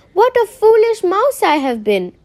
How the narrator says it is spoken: she cried

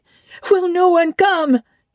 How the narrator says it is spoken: it cried

